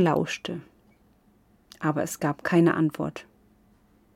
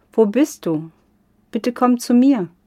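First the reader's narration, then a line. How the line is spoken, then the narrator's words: Called out. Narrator (German): rief Oki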